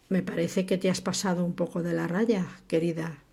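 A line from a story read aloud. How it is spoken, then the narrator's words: Murmur. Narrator (Spanish): murmuró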